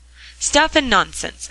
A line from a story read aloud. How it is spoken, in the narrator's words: exclaimed Mr